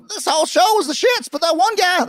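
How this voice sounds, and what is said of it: Imitates another person's voice. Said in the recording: “my Jim Cornette imitation”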